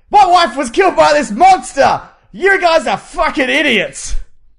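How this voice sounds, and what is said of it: Bryan Cranston impression, shouted. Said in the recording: “his Bryan Cranston impression”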